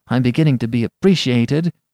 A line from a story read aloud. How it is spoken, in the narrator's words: he cried